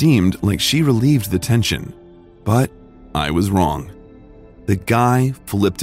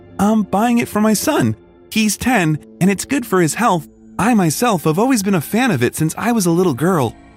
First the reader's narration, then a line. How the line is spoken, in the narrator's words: the lady said right before she laughed